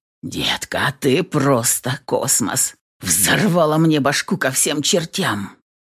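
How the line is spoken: Breathless hoarse rasp. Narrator (Russian): Прохрипел, ловя губами затихающие спазмы

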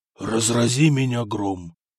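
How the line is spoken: Amazed whisper. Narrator (Russian): изумленно прошептал император

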